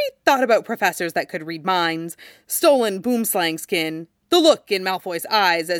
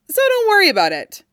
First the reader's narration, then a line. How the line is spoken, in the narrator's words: Ron said brightly